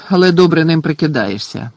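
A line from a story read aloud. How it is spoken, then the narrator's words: Grumbled. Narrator (Ukrainian): буркнув Гаррі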